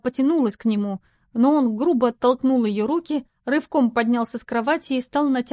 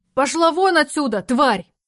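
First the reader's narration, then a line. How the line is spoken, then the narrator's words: Sudden wild yell. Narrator (Russian): Неожиданно заорал дурным голосом Александр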